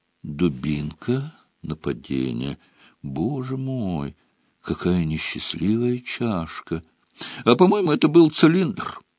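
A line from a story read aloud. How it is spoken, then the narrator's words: Uncertain drawl. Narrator (Russian): неуверенно протянул Рон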